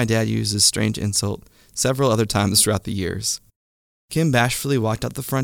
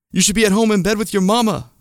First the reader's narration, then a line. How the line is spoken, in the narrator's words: shouted